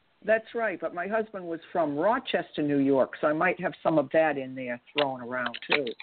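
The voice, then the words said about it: Boston East Coast accent. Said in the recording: “East Coast accents ... my Boston accent ... as soon as I heard your voice, I thought Boston”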